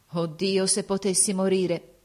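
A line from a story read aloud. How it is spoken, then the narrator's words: Plain. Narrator (Italian): disse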